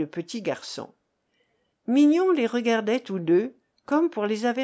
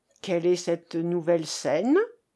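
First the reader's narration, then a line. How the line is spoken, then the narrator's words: Plain. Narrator (French): dit Madame Mélina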